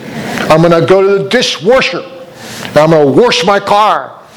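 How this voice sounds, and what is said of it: Regional accent, adds R to wash. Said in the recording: “it's wash. There's no R in it ... strange dialect ... in Pennsylvania”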